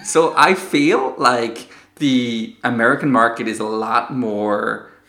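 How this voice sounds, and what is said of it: Put-on American accent. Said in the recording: “Please do an American accent ... I should like do every podcast in this voice”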